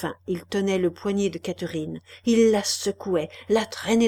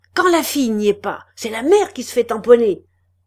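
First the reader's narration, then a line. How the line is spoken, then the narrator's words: Shouting. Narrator (French): cria Chaval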